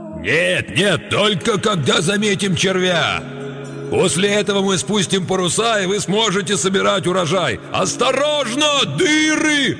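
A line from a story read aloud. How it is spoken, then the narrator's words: Deafening yell. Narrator (Russian): оглушительно завопил он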